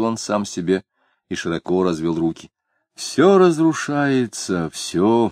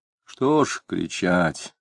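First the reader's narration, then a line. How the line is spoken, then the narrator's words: Heavy-sighing sad question. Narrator (Russian): вздыхая тяжко, спросил адвокат Вишняков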